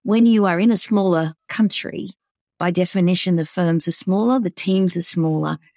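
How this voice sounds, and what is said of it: Australian accent. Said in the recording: “I was in Australia at the time. Perhaps it's obvious from the accent.”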